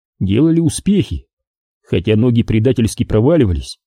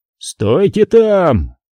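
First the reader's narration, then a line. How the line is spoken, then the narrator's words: Yelling. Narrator (Russian): заорал им Куай-Гон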